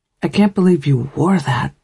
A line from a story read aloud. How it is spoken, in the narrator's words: Nikki whispered to me